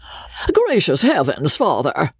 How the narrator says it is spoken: cried Joseph

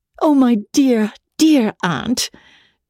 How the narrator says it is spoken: she rapturously cried

